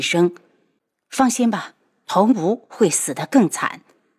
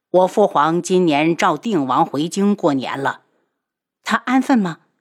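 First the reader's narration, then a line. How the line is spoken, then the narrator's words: Plain. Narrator (Chinese): 楚清瑶问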